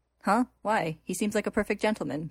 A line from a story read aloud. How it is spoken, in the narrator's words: she says